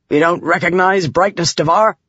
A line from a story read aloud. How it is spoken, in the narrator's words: he barked